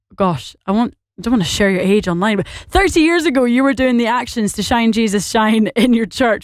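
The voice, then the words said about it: Northern Irish accent, rather Scottish-sounding. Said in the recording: “more Scottish sounding than Northern Irish ... I think I am a bit more Scottish”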